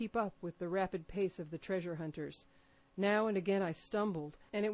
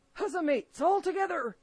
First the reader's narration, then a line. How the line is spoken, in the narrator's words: shouted Mary